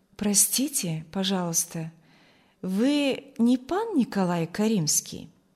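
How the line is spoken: Melodious, pleasant question. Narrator (Russian): спросил мелодичным, приятным голосом

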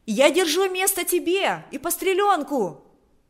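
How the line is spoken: Shouting. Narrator (Russian): кричала она

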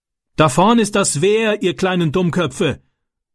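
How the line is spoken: Man bellowing. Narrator (German): brüllte der Mann

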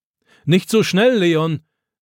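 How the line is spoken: Grandfather calling after. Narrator (German): ruft Opa ihm nach

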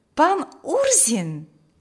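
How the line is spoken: Pleasantly surprised exclamation. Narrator (Russian): воскликнула Маргита, приятно удивленная этим неожиданным посещением

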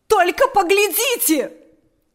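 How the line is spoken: Shouting. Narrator (Russian): закричала она

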